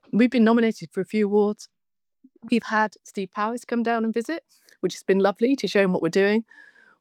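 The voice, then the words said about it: Hoarse, partly lost voice. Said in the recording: “I've lost my voice a bit”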